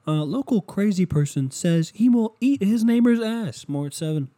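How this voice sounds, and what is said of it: Poor attempt at TV news voice. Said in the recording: “can't do the fucking radio voice or the TV voice... Terrible impression.”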